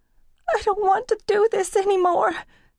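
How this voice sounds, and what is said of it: Whimpering, frightened voice. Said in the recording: “voice sounded like a whimper”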